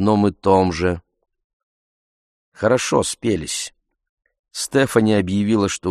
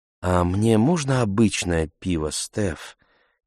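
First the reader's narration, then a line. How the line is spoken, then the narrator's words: Quiet timid voice. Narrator (Russian): Тихим голосом человека, боящегося обидеть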